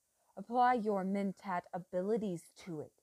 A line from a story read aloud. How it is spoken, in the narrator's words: she snapped